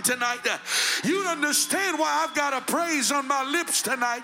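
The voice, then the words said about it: Shouting, loud preaching voice. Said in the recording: “I'm shouting”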